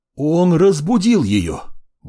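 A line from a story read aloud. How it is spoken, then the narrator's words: Two voices exclaiming together. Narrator (Russian): Воскликнули одновременно оба мага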